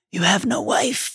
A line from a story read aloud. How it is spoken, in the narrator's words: said the cold voice very quietly